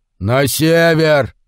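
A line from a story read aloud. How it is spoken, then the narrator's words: Roaring. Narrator (Russian): взревел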